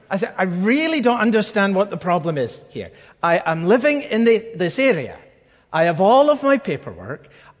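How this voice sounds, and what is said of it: Scottish accent. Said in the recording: “a Scottish accent is as much a liability in London as it is in America”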